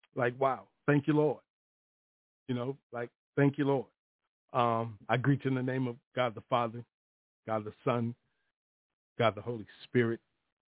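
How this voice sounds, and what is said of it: Choked-up emotional voice. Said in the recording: “my voice is getting choked up right now”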